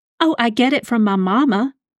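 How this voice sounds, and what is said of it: Heavy put-on Southern accent. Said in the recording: “said in a heavy southern accent”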